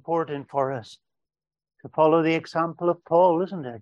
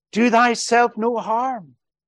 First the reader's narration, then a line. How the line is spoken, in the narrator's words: he shouts out